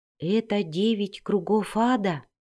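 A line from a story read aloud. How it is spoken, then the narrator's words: Barely audible fearful whisper. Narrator (Russian): еле слышно прошептала Кэти Бри, опасаясь, что звуки ее голоса могут привлечь новых монстров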